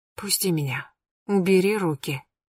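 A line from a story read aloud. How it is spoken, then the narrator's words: Barely audible. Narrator (Russian): Алина произнесла это еле слышно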